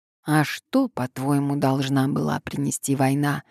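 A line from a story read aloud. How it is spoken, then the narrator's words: Plain. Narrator (Russian): сказала ему Селина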